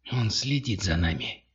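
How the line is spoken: Whispered. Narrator (Russian): прошептал Зинга

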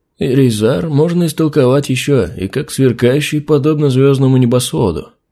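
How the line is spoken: Thoughtful. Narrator (Russian): задумчиво произнес Харальд

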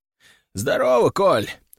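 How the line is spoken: Hoarse. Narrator (Russian): хрипло сказал Семен

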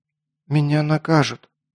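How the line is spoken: Quiet girl. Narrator (Russian): тихо сказала девушка

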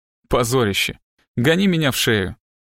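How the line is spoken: Reluctant laugh. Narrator (Russian): Она нехотя рассмеялась

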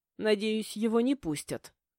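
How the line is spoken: Grumbling. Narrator (Russian): проворчала

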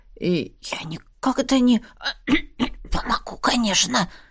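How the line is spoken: Breaking, faltering whisper. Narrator (Russian): Срывающимся шепотом пробормотал он

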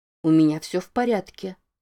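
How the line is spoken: Calm, soothing. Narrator (Russian): произнесла она спокойно, как няня на детской площадке, пытающаяся утешить истеричного ребенка

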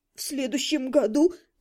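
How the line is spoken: Sobbing aunt. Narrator (Russian): всхлипнула тетя

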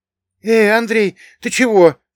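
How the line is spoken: Worried question. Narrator (Russian): взволнованно спросил Богдан

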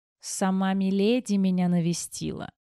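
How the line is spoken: Hoarse question, croaking laugh. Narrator (Russian): хрипло спросил мужчина и каркающе рассмеялся

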